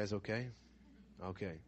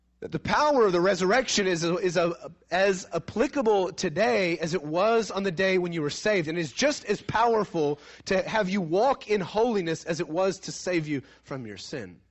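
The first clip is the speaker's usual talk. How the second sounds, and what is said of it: Raised, louder preaching voice. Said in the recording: “I raised my voice a little.”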